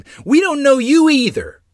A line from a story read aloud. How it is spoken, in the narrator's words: tears stinging my anger-filled eyes, and screamed